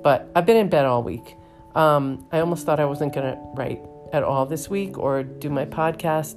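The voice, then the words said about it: Voice sounding sick. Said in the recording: “As you may be able to hear by my voice, I've been sick this week. I've either had the flu or a bad cold.”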